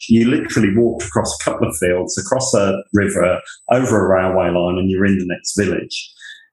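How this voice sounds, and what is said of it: English Northamptonshire accent, mixed influences. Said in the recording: “So my accent, obviously Northamptonshire, but then I lived in London for quite a while... I seem to pick up the worst of accents”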